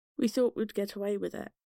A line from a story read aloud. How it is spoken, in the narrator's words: John could be heard towards the end of the tapes after threatening to kill himself twice, saying in a defeated tone